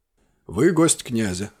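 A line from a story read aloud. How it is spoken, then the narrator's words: Calm reply. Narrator (Russian): спокойно ответил Кован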